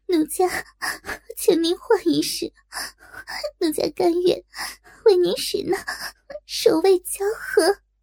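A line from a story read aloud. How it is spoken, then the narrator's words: Shy frightened crying. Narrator (Chinese): 若真又羞又惧，忙哭道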